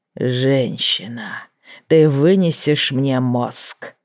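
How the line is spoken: Growling. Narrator (Russian): прорычал Алертон

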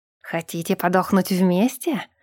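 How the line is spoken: Half-elf's hiss. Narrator (Russian): прошипел полуэльф

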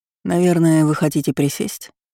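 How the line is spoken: Soft but impatient. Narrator (Russian): спросил мягко, но при этом выдав нетерпение

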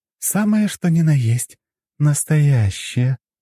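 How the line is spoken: Purring in the ear. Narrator (Russian): промурлыкала Лора на ухо

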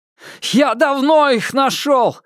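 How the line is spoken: Furious shout. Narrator (Russian): в бешенстве крикнул священник

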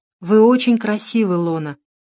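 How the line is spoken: Slightly sad. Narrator (Russian): немного печально сказал Дронго

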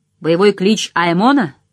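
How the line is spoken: Plain. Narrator (Russian): сказала она

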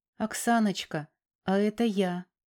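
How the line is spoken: Timid hesitant greeting. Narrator (Russian): робко произнес он, наткнувшись на недовольное выражение лица бывшей жены

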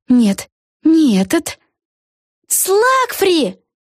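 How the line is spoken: Exclaimed in chorus. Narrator (Russian): хором воскликнули Вега с Флафанорой

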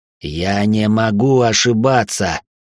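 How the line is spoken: Hissed. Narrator (Russian): прошипел

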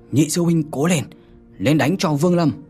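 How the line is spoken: Loud, raised voice. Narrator (Vietnamese): có một tên đệ tử của Huyền Đạo Tông cao giọng nói

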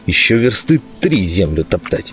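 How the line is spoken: Grumbling, perpetually displeased. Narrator (Russian): проворчал вечно недовольный Лузга

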